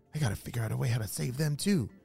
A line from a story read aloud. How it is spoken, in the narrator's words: Phoenix whispered to himself